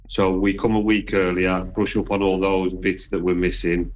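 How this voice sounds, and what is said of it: Black Country Midlands accent. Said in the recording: “your accent, because she too is from the Midlands ... So I am Black Country. I'm on the edge of Walsall and Wolverhampton”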